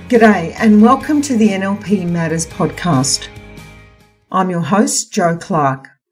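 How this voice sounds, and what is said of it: Voice not clear, unwell. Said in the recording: “Probably as you can hear, my voice has not cleared up as I had hoped.”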